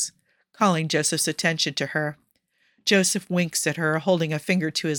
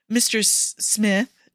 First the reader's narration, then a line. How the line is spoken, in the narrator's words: she stammers, feeling like she stumbled into something she's not supposed to see